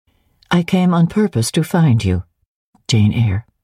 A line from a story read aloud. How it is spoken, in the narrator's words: said she